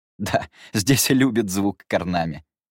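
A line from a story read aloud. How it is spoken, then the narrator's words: Laughing. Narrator (Russian): рассмеялся Люмьер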